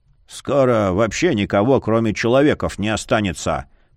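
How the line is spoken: Grumbling. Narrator (Russian): проворчал лютень

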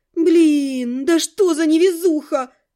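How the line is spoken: Groaning. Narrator (Russian): простонала я

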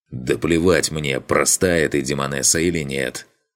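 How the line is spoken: Growled. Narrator (Russian): Прорычал я

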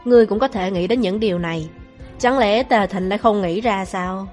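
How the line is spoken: Cold question. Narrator (Vietnamese): tôi lạnh lùng hỏi

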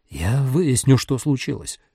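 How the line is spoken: Muttering. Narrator (Russian): пробормотал он

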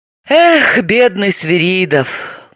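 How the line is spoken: Sorrowful sigh. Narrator (Russian): горестно вздохнула Далила

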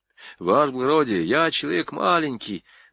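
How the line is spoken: Mumble, clerk. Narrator (Russian): бормотал писарь

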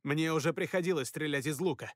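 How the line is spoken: Snapping. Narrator (Russian): огрызнулся я

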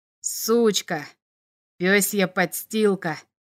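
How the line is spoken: Neighbor hissed. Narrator (Russian): Прошипел сосед

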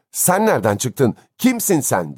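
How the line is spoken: Angry. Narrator (Turkish): Bay Button öfkeyle

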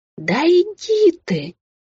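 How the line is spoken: Smiling exclamation. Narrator (Russian): воскликнула Белль и заулыбалась

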